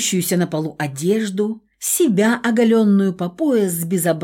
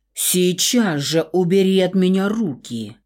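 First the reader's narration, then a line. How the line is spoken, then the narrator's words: Growled. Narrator (Russian): Буквально прорычала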